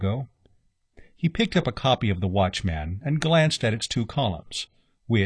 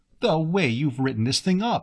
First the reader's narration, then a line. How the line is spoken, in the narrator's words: said Breton